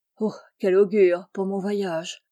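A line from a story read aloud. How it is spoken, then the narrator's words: Sighing. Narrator (French): soupira-t-elle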